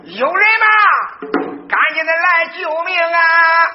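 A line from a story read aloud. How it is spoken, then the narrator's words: Loud cry. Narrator (Chinese): 有人大叫一声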